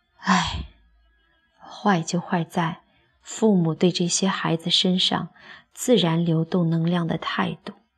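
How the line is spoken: Old man sighing, low. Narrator (Chinese): 老人叹口气，低声地说

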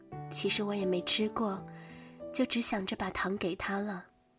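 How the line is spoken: Mumbling. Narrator (Chinese): 小白兔喃喃地说

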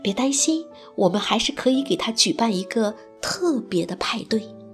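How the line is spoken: Quiet. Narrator (Chinese): 胆小鼠小声的

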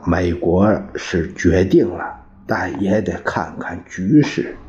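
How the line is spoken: Low reply. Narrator (Chinese): 宋子文也低声答道

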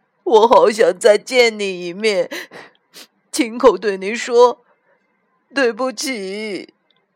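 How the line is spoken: Crying with grief. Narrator (Chinese): 小猪哭着说

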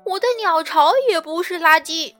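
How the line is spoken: Loud shout. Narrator (Chinese): 叫喊声很大

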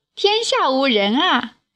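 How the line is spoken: Laughing. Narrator (Chinese): 冉有笑道

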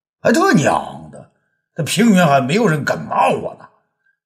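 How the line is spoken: Furious. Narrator (Chinese): 平原都尉大怒啊

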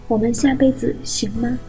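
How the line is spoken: Tearful nervous apology. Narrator (Chinese): 他哭了，他紧张不已，像做了错事一般连声道歉

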